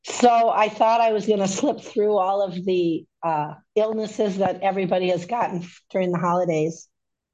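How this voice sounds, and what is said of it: Hoarse, sick, congested voice. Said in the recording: “Don't I sound beautiful? A little sexy, maybe? ... this new sexy voice ... I got this crud going around, and it's all in my chest and my throat and coughing. And this is what I've sounded like now for a week. ... I sound worse than I feel.”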